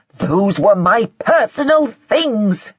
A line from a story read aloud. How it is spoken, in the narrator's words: Joy shouted